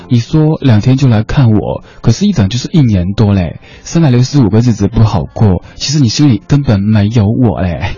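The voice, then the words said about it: Taiwanese-accented Mandarin, coy tone. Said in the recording (Chinese): “应该用那种比较台湾地区口音的普通话念出来，这样说哈 ... 这样念才显得出这个傲娇的情绪”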